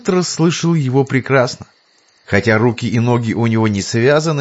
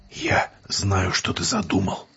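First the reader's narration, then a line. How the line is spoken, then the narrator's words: Husky whisper. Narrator (Russian): хрипловатым шепотом произнес преподобный Деквин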